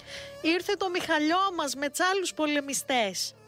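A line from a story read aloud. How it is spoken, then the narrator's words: Small children shouting. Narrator (Greek): Μα και τα μικρά παιδιά του, ο Μανώλης και η Βαγγελιό, το ίδιο φωνάζοντας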